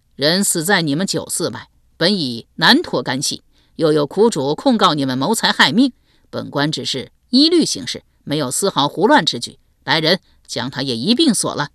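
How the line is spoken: Cold. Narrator (Chinese): 侯姨冷冷道

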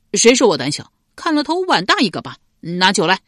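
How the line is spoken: Angry tipsy. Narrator (Chinese): 赖毛被激怒了，瞪着一双微醉的小眼道

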